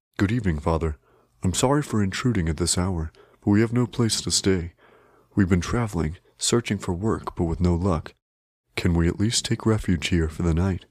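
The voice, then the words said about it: Strong but gentle voice. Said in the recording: “His voice was very strong, but gentle.”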